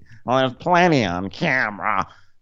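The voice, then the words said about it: Imitation of Meredith's voice. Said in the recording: “I'm doing Meredith voice”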